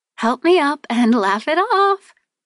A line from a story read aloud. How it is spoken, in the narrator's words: I giggled